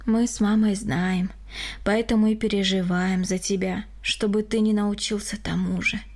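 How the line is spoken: Sighing. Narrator (Russian): вздохнул Григорий

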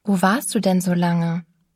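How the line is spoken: Plain question. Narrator (German): fragte ich

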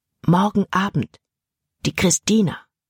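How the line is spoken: Whispering in ear. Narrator (German): flüsterte er in Jordans Ohr

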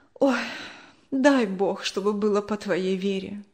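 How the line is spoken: Sigh. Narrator (Russian): вздохнула она

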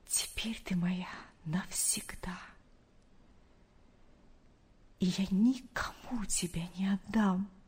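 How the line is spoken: Whispered. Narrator (Russian): прошептал он

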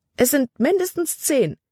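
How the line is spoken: Exclaiming. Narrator (German): rief sie aus

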